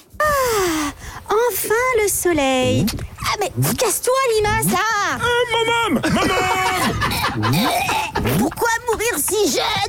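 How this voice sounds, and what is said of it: Voices a slug character. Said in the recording (French): “Vous faites super bien la limace.”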